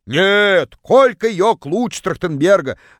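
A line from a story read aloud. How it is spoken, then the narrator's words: Distant yell. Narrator (Russian): заорала одна из них из самого дальнего угла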